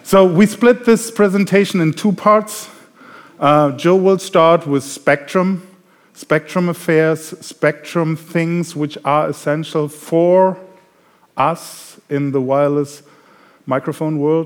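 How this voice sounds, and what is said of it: German accent. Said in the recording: “As you can hear from my accent, I'm German.”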